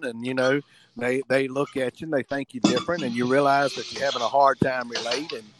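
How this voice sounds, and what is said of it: Strong Southern American accent. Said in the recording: “my accent is a little stronger than other people's as far as Southern”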